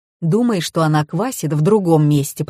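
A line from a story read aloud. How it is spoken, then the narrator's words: Grumbling. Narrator (Russian): проворчал Сава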